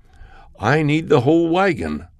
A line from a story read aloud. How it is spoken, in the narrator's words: the prophet exclaimed